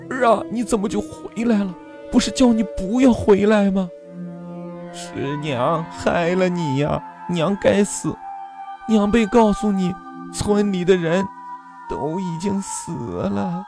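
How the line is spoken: Sobbing bitterly. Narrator (Chinese): 顿时失声痛哭

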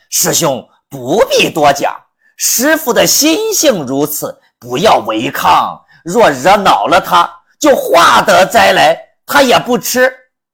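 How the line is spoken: Laughing. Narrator (Chinese): 老沙笑着说道

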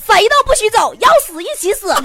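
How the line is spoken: Desperate shout. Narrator (Chinese): 强子绝望的喊了一声

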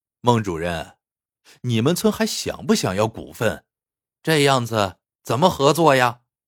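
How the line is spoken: Ingratiating, forced smile. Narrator (Chinese): 老孟陪着笑脸

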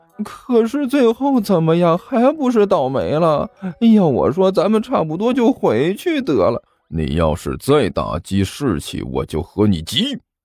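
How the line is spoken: Whining, tearful. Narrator (Chinese): 刘阿八哭丧着脸说道

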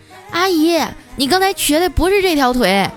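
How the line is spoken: Child calling from behind. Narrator (Chinese): 那小朋友在后面喊

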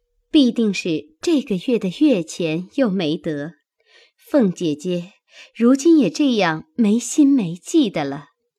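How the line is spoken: Laughing question. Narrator (Chinese): 宝钗笑问道

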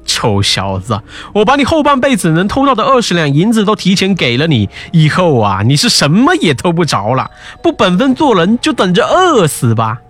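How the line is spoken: Secret chuckling. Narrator (Chinese): 城隍却在暗地里偷偷发笑

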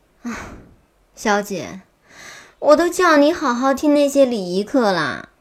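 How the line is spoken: Resigned sigh. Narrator (Chinese): 新慧无声地叹了口气

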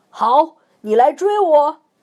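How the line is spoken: Shouting. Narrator (Chinese): 星星经理喊

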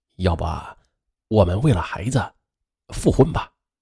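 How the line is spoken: Lowered voice, longing. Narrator (Chinese): 他也非常想念女儿，他就压低了声音说道

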